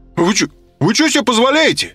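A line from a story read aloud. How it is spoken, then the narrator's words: Loud protest. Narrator (Russian): Громко запротестовал он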